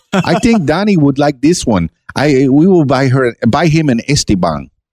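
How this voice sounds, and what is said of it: Imitated Cuban grandmother's accent. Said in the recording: “She's Cuban, by the way ... I am making fun of her accent.”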